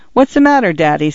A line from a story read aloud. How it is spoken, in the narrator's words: Cynthia asked